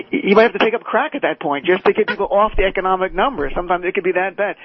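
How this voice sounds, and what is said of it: New Jersey accent. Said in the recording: “I'm a Jersey guy ... You can hear my accent.”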